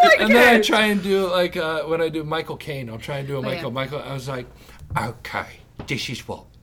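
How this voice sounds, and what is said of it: Usual voice. Nothing is said of it.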